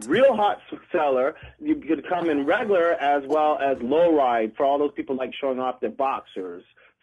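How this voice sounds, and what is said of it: Canadian accent. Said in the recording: “it sounds like he's from New York. ... you can totally hear the Canada accent.”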